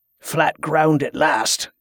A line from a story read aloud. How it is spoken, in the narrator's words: Clegg muttered